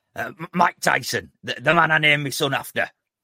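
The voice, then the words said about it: Gravelly imitation of another person's voice. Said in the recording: “Shall I try and do the accent ... I'm just trying to get a bit of gravel in my voice.”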